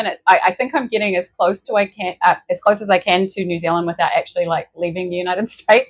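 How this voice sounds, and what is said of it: Speaker's own distinctive accent. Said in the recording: “your accent is brilliant”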